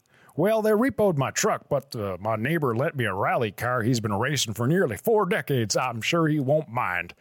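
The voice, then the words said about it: Odd put-on regional accent. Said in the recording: “I don't know what fucking accent that is. ... This is not a Canadian accent anywhere in Canada”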